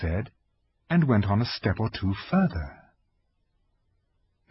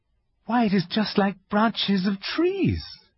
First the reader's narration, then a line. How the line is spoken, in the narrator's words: exclaimed Lucy